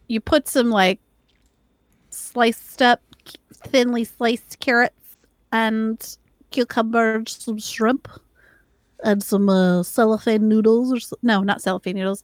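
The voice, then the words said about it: Odd, put-on weird speaking voice. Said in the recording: “speaking in this weird voice”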